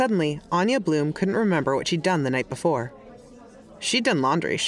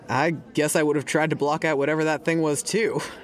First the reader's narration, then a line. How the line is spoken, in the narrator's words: said Hector